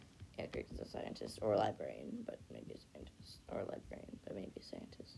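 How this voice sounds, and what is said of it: Usual voice. Nothing is said of it.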